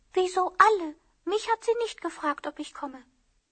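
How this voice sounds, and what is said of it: Quiet, hushed speaking. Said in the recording (Chinese): “他小声地说”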